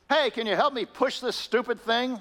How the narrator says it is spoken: he yelled

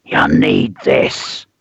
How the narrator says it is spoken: hissed the stranger

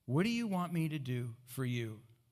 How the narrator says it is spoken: Jesus asked

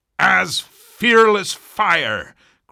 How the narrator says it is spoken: cried Stubb

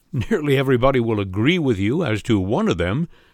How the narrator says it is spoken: said I with a laugh

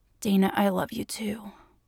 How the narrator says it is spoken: he rasped in her ear

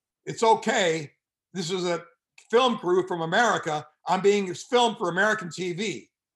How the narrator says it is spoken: he yells out

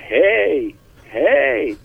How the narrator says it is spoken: shout

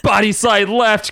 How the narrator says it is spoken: Cable screamed

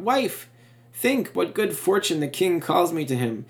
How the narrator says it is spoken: He cried out

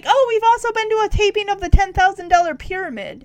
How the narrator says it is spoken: he shouts

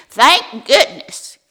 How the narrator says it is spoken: yelled, who expected her to pick up on the first ring

